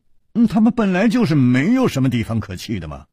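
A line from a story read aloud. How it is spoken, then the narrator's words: Sighing. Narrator (Chinese): 楚留香叹了一口气说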